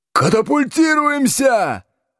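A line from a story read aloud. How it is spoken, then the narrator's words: Howl. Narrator (Russian): взвыл Будкин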